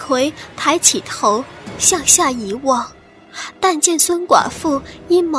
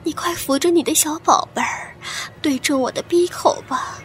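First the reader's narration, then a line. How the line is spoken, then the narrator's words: Whispering. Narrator (Chinese): 悄声道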